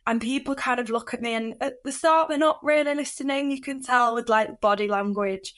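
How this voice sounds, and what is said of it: Northern English accent, youthful voice. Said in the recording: “I've got a northern accent, my voice sounds relatively young as well”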